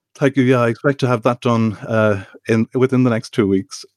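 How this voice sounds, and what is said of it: Irish accent. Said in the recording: “Irish accent”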